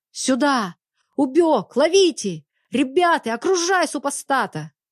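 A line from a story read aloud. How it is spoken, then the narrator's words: Guard soldiers shouting. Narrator (Russian): закричали солдаты караула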